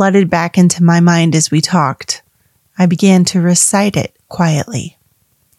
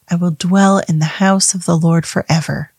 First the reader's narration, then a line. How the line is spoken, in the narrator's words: said softly